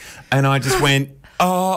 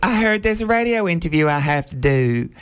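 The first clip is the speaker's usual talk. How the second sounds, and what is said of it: Impression of Nicole Paige Brooks, Southern accent. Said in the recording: “Great impression with the accent. ... Well, it's southern.”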